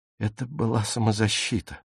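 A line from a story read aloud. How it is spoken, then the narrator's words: Muttering. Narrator (Russian): бормотала Фрида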